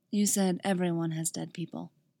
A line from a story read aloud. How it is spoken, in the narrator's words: says softly